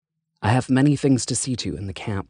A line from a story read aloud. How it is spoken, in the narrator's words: said